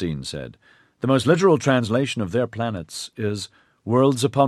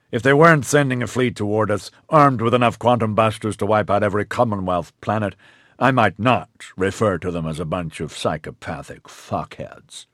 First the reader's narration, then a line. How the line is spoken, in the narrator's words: Gore snapped